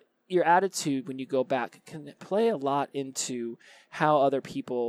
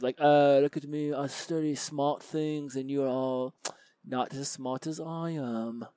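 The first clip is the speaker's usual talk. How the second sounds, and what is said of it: Put-on London accent. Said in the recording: “my Beatlesque London accent there”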